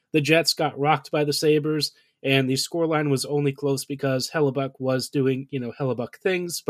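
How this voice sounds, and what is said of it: Sick-sounding voice. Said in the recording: “As you can hear from my voice, I haven't exactly been super well myself”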